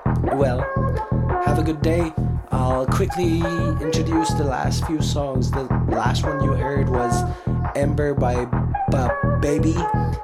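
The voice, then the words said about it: Impaired voice, not usual radio voice. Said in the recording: “Sorry again for my voice. Hopefully by next week I'll get better and I can have my radio voice back.”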